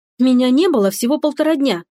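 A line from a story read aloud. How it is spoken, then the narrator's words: Unrestrained exclamation. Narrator (Russian): не сдержалась и воскликнула Стефани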